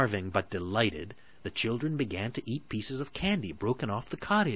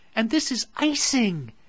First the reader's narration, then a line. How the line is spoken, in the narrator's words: exclaimed Gretel